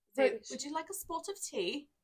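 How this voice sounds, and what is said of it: Put-on British accent. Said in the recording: “Do a British accent. ... She's like a mix between Mrs. Doubtfire.”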